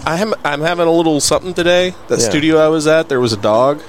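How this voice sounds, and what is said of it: Congested, stuffed-up voice. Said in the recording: “You sound a little stuffed up”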